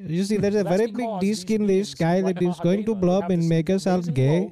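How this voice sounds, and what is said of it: Mock Indian accent. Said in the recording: “To do it in a very Indian accent if it's going to be entertaining.”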